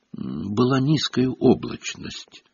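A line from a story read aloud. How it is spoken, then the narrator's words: Mumbled. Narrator (Russian): промямлил Фред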